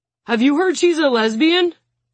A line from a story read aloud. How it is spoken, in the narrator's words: Bobo blurts out a little too loudly